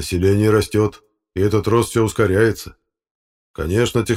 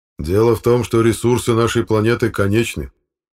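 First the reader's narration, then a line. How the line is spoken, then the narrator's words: Plain. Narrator (Russian): сказал Алексей Дмитриевич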